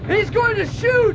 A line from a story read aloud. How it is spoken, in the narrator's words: He shouted